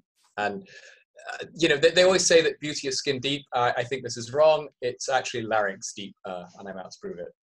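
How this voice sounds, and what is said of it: Hybrid transatlantic English-Canadian accent. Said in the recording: “that Canadian accent, though, eh? ... It's like the mushy hybrid mongrel transatlantic accent with sort of little bits of English mushed with little bits of Canadian.”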